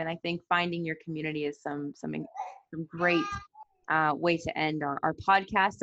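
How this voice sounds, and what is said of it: American accent. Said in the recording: “you can hear from my accent, I'm American”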